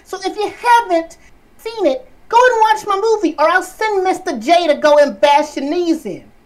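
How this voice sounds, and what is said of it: Bad imitation of Harley Quinn's voice. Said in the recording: “that bad Harley Quinn impression”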